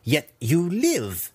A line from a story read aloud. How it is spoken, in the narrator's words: Malice sneered